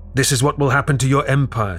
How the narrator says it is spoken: he shrieks to the shocked Habsburg dignitaries

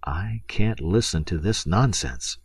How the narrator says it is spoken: murmured making a slightly contemptuous grimace

